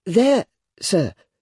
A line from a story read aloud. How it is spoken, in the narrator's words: I timidly explained